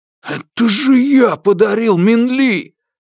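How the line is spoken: Roaring. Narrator (Russian): Взревел Юань Сяофэн

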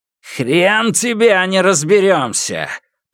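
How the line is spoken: Roaring. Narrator (Russian): проревел Лу Цзиньтан

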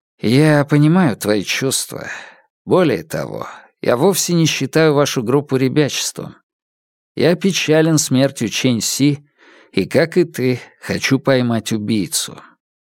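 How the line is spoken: Said with a sigh. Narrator (Russian): Синджи Сэнь, вздохнув, сказал

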